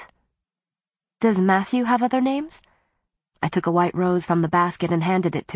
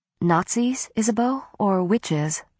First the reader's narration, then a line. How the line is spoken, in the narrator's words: I asked quietly, fearing the worst